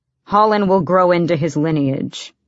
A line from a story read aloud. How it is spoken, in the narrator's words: Kaol grumbled